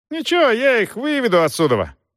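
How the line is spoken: Shouted. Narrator (Russian): крикнул Рейч

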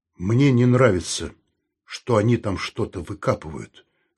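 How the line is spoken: Gloomy. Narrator (Russian): сказал он мрачно

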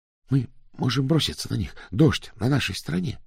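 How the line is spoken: Whisper. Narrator (Russian): шепнул Пилу

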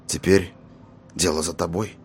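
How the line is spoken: Muttered into ear. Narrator (Russian): пробормотал он на ухо ушастику

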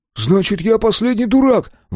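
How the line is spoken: Exclamation. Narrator (Russian): воскликнул Брайан

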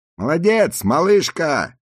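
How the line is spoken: Group shouting. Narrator (Russian): кричали они

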